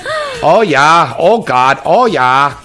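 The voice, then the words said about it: Bad put-on Minnesota accent. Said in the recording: “That's from Minnesota ... I did a bad impression”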